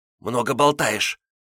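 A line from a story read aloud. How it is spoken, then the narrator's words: Angry. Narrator (Russian): сердито отозвалась Нора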